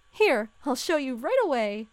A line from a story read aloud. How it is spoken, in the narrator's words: said Tina happily